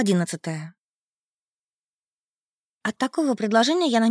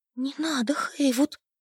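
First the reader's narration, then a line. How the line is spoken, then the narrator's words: Terrified whisper. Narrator (Russian): в ужасе прошептала я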